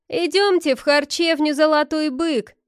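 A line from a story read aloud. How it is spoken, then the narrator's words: Shouting. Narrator (Russian): кричал косоглазый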